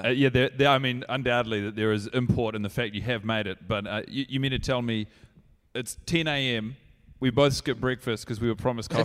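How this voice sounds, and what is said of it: Put-on character voice. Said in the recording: “your regular accent isn't sort of shining through ... this is a new character ... Are you trying to shake that Tennessee twang?”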